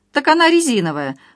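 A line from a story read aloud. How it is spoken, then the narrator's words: Informing, then open laughter. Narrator (Russian): сообщила домработница и откровенно захохотала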